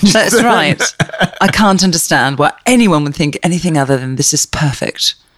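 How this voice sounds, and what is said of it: Put-on British accent. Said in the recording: “our British accents, even though you just did a great one. ... That's pretty good. ... Oh, no, it's perfect.”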